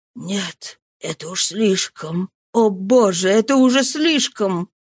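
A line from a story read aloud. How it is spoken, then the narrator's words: Muttered. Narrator (Russian): в отчаянии руки, бормотал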